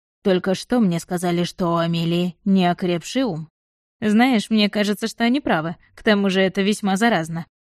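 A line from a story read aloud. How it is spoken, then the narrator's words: Chuckling. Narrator (Russian): хохотнул Этьен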